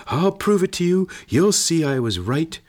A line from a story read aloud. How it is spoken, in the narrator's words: He whirled around at the gate and shouted